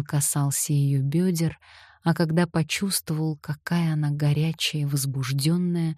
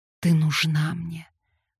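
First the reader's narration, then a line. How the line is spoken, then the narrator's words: Hoarse. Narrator (Russian): хрипло сказал он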